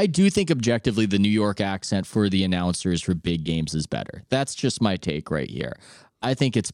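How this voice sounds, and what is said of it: Usual voice. Nothing is said of it.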